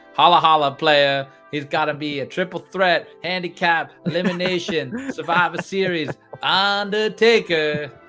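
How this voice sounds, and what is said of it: Imitates another person's voice. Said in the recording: “That was my worst Teddy Long impersonation of all time.”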